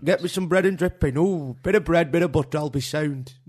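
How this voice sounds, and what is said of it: Exaggerated northern English accent. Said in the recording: “thick northerner ... You don't have to do the accent.”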